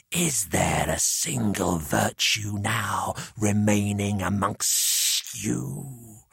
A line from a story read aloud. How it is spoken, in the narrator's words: The hissing